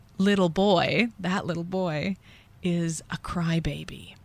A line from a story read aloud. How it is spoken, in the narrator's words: I whispered in his ear